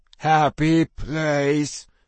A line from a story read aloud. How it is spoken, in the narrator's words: Tiggy muttered